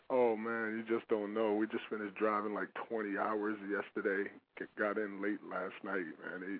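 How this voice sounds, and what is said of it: Tired, worn-out voice. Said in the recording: “I am so worn out. You can hear it in my voice, I think, too. ... I am burned out.”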